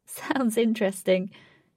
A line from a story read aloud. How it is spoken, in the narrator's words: she laughed